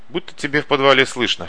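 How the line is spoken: Worm smirking grunt. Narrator (Russian): хмыкнул червь

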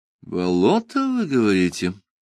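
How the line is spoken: Thoughtful question. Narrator (Russian): задумчиво переспросил я

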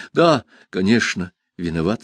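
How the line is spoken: Plain. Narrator (Russian): сказал я

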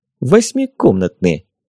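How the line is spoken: Giggling. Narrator (Russian): Вика хихикнула

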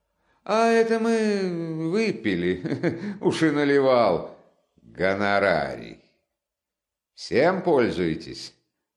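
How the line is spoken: Laughing. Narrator (Russian): Раскольников засмеялся

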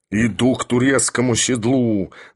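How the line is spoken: Growled. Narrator (Russian): зарычал Филипп Филиппович

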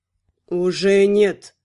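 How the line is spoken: Necromancer, through gritted teeth. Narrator (Russian): процедил некромант

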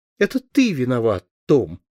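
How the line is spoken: Hurt, resentful. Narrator (Russian): сказала обиженно

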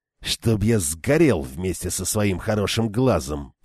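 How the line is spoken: Grumbling. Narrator (Russian): проворчал он

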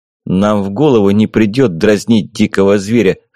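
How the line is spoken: Smirking grunt. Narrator (Russian): хмыкнул я

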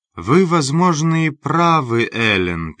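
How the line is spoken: Sad. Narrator (Russian): печально произнесла она

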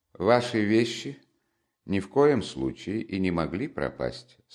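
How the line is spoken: Calm and cold. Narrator (Russian): спокойно и холодно продолжал он

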